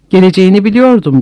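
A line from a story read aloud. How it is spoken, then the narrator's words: Plain. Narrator (Turkish): dedi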